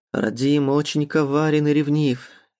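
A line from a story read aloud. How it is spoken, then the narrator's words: Sad, smiling. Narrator (Russian): грустно улыбнулся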